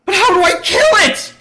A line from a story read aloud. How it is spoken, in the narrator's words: Kim screams